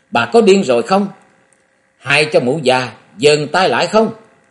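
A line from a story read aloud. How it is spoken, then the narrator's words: Loud speech. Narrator (Vietnamese): Ngọc Long lớn tiếng nói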